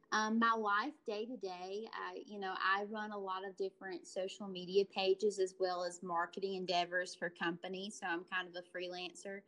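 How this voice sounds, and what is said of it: Southern US accent. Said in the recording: “my accent lets you know I'm probably from the South”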